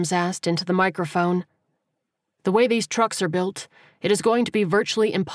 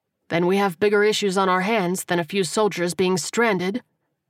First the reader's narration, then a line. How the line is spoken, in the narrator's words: the captain replied dryly